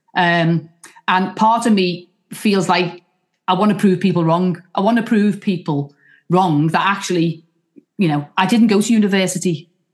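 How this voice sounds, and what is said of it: Liverpool accent. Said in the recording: “because I am from Liverpool ... your accent sometimes, you know, it goes before you. So someone hears you speak”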